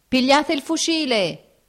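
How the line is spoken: Shouting. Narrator (Italian): gridò uno

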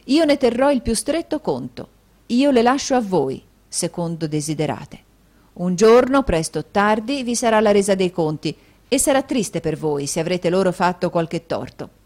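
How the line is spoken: Thundering voice. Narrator (Italian): disse con voce tonante

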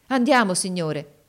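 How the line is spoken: Enthusiastic exclamation. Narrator (Italian): esclamò egli con trasporto

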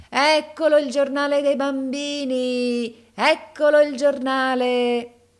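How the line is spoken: Shouting. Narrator (Italian): gridava

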